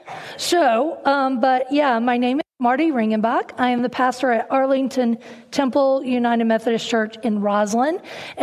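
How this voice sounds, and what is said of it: Slight Southern US twang. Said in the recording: “I was born and raised in North Carolina, and so there's a little bit of a southern twang in my voice ... I've lost some of that twang, but it tends to come back ... So it might be really heavy today.”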